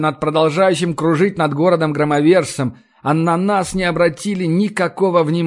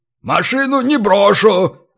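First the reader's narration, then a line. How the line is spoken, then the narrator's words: Yell. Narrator (Russian): заорал Ори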